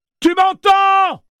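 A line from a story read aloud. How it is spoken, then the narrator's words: Yelled. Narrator (French): hurla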